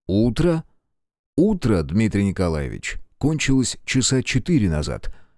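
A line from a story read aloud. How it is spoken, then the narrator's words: Icy clipped tone. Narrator (Russian): ледяным тоном отчеканил Белецкий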